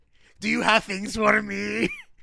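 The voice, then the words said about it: Put-on Krampus character voice. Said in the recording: “Best voice ever ... I don't know what the accent is ... It's certainly not Germanic at all ... that Krampus voice”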